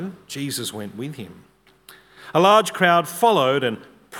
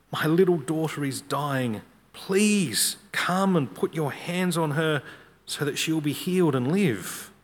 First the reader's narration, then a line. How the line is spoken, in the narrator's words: He pleaded earnestly with him